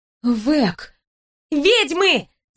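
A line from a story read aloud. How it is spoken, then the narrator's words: Scream. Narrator (Russian): закричала я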